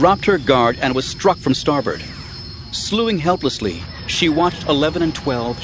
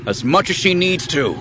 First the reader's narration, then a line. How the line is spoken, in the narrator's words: Han growled, without meaning to